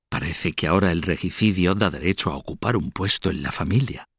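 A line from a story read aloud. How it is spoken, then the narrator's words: Whisper. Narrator (Spanish): El conde de Kent, hermanastro del muerto, le susurró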